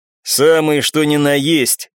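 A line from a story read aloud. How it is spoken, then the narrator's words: Laughing man. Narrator (Russian): хохотнул мужчина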